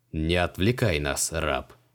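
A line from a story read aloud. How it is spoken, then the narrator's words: Menacing. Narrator (Russian): грозно нахмурился Криол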